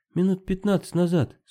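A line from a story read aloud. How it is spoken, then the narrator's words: Calm woman. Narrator (Russian): спокойно сказала женщина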